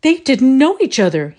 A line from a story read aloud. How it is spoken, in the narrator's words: he exclaimed